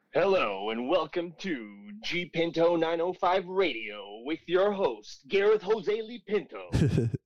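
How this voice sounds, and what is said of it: Strained, squashed radio announcer voice. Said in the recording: “a good radio voice ... like, do a cool introduction for your radio station in your best radio voice ... That was a little bit too much anus clenching. Like it squashed your voice.”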